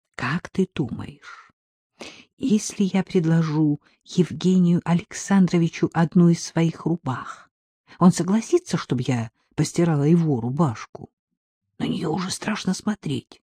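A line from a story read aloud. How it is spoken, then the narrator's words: Conspiratorial whisper. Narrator (Russian): Агнесса тоном заговорщика прошептала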